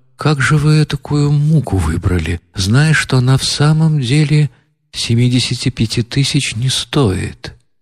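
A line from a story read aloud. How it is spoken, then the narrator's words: Timid question. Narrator (Russian): спросил довольно робко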